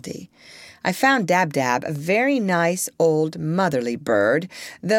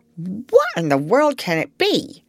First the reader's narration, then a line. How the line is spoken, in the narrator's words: cried Dab-Dab